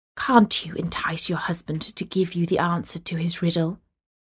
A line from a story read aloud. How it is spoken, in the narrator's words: the girl's father ... whispered into her ear